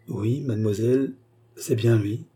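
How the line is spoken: Stammering. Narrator (French): Cerise balbutia

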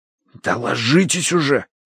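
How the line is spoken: Hissing. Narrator (Russian): прошипел я

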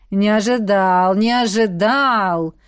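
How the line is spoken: Drawn-out drawl. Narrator (Russian): протянул Седрик Тодж

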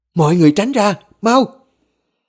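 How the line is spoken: Woman shouting urgently. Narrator (Vietnamese): Bà hét lên

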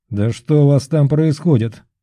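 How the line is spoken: Short doubtful grumble. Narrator (Russian): коротко проворчал он, все еще не до конца уверенный в серьезности происходящего

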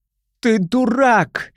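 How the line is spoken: Frenzied female scream. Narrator (Russian): исступленно кричала она

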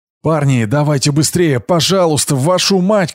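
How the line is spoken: Shouted. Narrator (Russian): кричала Герда

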